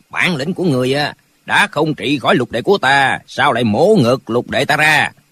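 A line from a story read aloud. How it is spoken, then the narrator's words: Cold. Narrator (Vietnamese): Lão mập lùn lạnh lùng nói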